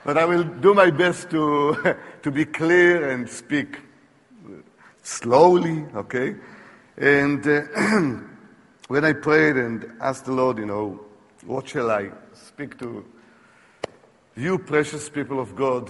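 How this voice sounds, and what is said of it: Foreign accent. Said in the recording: “if you have problems with my accent”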